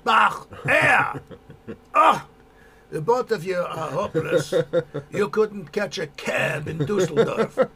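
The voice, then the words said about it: Put-on foreign accent. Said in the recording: “Your accent”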